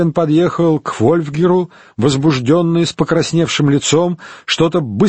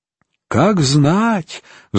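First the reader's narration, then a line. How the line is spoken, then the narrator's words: Sigh. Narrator (Russian): вздохнул Голиард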